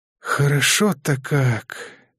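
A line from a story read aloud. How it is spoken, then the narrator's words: Relieved gunsmith exhaling. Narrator (Russian): Расслабившись и успокоившись, выдохнул оружейник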